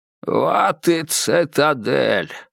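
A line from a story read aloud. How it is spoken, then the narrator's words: Creaky voice. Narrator (Russian): проскрипел Грегор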